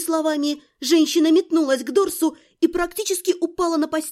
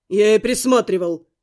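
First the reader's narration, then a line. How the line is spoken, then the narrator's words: Growled. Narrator (Russian): рыкнул Глун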